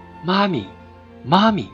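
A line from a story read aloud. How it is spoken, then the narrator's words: Child calling softly while stumbling. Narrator (Chinese): 小孩跌跌撞撞地在泥地里跑着，小声地叫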